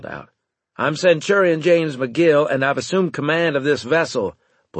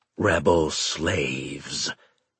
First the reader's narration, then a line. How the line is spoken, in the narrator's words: Satikas rasped out